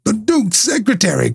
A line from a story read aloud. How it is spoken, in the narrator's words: cried Holmes